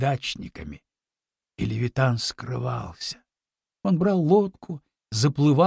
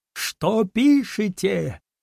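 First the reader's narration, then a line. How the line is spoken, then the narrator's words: Shouting, crying voice. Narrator (Russian): кричал он плачущим голосом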